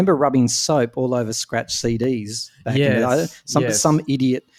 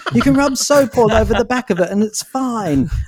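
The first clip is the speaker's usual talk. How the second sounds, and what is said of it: Put-on British accent. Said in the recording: “It's probably someone from the UK, so let's stick with that accent.”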